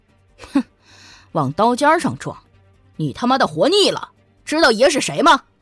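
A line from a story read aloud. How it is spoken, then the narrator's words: Laughing, smug. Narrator (Chinese): 张龙哈哈大笑，得意地说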